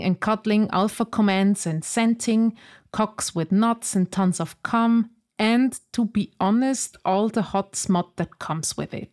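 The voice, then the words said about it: Rough Swiss accent. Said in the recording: “It's my rough Swiss accent.”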